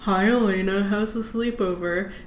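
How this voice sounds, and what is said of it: Imitates a male character's voice. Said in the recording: “that was my Jeremy impression.”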